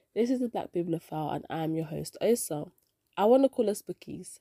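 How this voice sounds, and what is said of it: Nasal, congested voice from a cold. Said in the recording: “I have a cold. I sound a bit nasally.”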